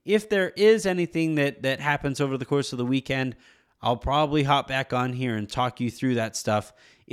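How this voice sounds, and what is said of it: Shaky voice with a cold. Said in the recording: “as you guys can hear, my voice is a little bit shaky right now. My daughter brought home a nice case of the sniffles”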